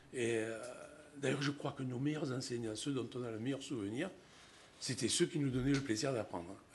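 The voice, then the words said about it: Marseille French accent. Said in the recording (French): “où je suis originaire, vous pouvez l'entendre dans mon accent. Bien que je sois à Paris depuis 30 ans, je n'ai pas perdu l'accent. C'est indélébile”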